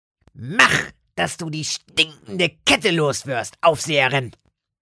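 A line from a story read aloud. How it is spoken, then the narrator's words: Dull grunt. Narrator (German): grunzte Lotte dumpf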